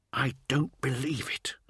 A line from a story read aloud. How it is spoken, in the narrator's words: whispered Urath, as reports of secure battlefields chimed in from all across the ravaged world